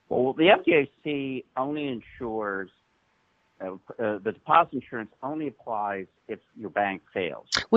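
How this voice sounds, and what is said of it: Strange voice-changer altered voice. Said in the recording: “voice changer? Your current voice changer is a little strange... I don't know what kind of accent this is supposed to be”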